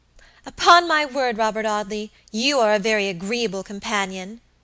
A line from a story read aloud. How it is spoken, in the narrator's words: exclaimed Alicia at length, her rather limited stock of patience quite exhausted